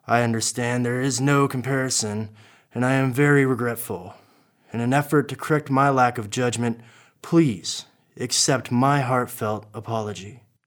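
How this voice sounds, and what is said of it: Good Johnny Depp imitation. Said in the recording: “That's a pretty good imitation of Johnny Depp.”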